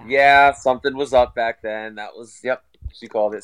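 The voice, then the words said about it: Raspy voice, under the weather. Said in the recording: “my voice is a little raspy. I'm a little under the weather right now.”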